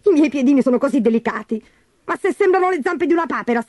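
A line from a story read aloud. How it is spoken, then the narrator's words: Shrieked. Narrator (Italian): strillò Gertrude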